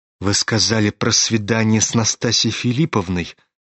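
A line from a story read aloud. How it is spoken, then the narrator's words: Hesitant mutter. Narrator (Russian): пробормотал он наконец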